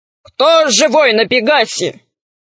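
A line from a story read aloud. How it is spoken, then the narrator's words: Thunderous monster voice. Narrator (Russian): Громовым голосом спросило чудовище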